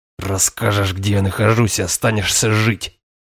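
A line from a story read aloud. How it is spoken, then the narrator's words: Hissing. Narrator (Russian): прошипел я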